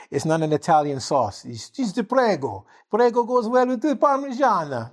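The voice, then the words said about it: Bad put-on Italian accent. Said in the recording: “I know it's a terrible Italian accent”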